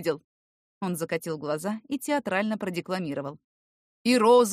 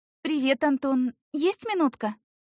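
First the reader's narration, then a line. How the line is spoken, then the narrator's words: Girl asking, thin voice. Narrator (Russian): спросила девушка тонким голосом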